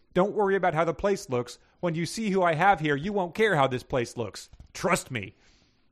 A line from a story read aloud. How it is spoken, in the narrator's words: Gordle said excitedly